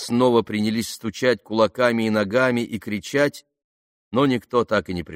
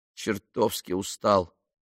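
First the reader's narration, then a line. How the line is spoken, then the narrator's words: Mutter. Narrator (Russian): пробормотал он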